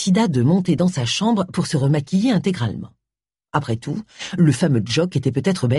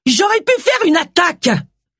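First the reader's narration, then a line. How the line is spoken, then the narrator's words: Screamed. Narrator (French): hurla Agatha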